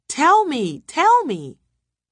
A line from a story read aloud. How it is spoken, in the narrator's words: Jadine had to shout